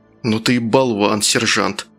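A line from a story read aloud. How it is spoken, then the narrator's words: Hasty mutter. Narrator (Russian): наскоро буркнул один из них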